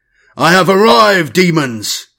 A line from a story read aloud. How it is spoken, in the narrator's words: Tyadeus bellowed